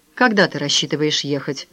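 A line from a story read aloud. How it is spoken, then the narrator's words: Sad question. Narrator (Russian): грустно спросил Филипп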